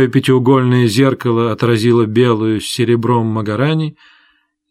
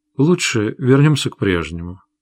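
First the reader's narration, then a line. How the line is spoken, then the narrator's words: Quiet. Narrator (Russian): тихо сказала Родис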